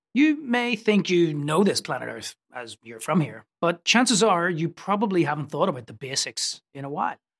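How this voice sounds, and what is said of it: Belfast Northern Irish accent. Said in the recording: “the accent is from Belfast”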